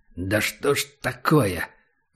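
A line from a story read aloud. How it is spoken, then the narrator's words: Cursing through clenched teeth. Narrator (Russian): выругался Убер сквозь зубы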